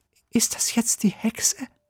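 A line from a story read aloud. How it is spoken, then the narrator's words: Whispered. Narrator (German): flüstert Sophia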